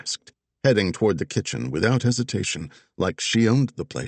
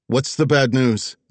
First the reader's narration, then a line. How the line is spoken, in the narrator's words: Zig called out